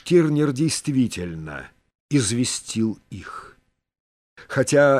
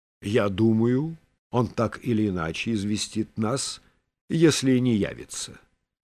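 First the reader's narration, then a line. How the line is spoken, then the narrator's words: Plain. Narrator (Russian): сказал Качинский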